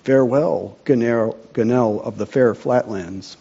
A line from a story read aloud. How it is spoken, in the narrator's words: murmured the old man